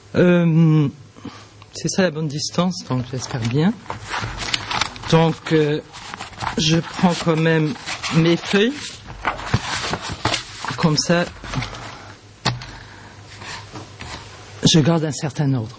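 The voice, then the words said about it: Luxembourgish-accented French. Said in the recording (French): “J'ai un accent luxembourgeois”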